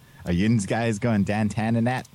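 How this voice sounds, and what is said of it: Put-on Pennsylvanian (Pittsburgh) accent. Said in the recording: “teach me how to speak Pennsylvanian”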